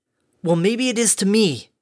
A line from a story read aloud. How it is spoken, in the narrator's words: exclaimed